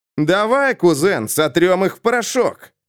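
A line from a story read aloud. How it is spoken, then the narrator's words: Brisk cheerful. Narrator (Russian): бодро бросил Дэймон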